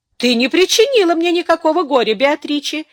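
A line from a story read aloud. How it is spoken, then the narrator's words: Cheerful. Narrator (Russian): весело продолжал Ян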